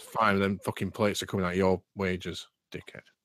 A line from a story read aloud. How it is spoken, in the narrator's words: Grunts from over and says